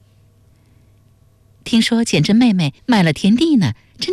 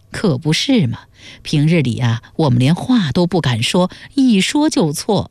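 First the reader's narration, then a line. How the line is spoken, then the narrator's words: Sighing. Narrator (Chinese): 刘氏叹道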